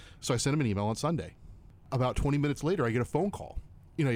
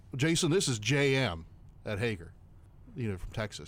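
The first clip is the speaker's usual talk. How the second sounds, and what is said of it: Thick put-on Texas accent. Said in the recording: “So that's a thick Texas accent... It was a great Texas accent.”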